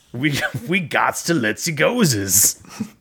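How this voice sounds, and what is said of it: Weird, garbled put-on dialect. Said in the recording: “Putting on like a really weird dialect here that I don't understand.”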